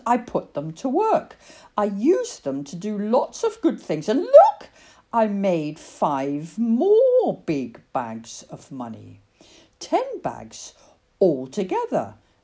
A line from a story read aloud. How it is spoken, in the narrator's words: exclaimed the man with money